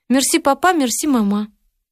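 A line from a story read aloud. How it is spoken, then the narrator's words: Thin clever-girl voice. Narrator (Russian): Катя говорила тоненьким голосом умной девочки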